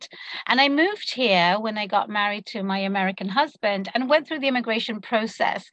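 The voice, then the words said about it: London British accent. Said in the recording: “I was born and raised in London, as you might be able to tune into my accent.”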